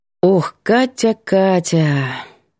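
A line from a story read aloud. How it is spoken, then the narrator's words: Sighing. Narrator (Russian): Вздыхает Светка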